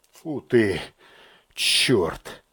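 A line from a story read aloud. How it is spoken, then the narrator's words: Muttered. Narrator (Russian): пробормотал подполковник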